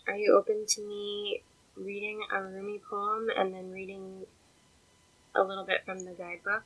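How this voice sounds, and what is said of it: Croaky, congested voice. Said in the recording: “My voice is all croaky. I'm a little bit stuffed up.”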